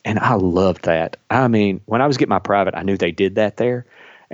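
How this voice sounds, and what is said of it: Kentucky accent. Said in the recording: “Kentucky, which is where I'm from, if you can't tell from my accent.”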